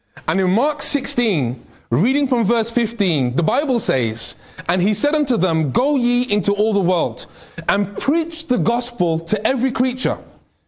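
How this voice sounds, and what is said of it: British accent, slow speech. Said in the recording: “I need to speak more slowly. I'm speaking with a British accent, which I'm trying to speak more slowly”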